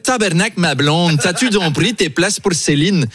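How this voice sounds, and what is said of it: Put-on Québécois French accent. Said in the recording (French): “C'est mon imitation de Louis XVI. ... J'ai pris un accent canadien parce qu'il paraît que le français du Québec est une conservation du français de l'époque ... Et c'est très bien imité.”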